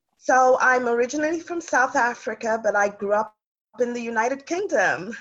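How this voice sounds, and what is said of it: A lovely foreign accent. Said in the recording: “I hear the accent. So lovely.”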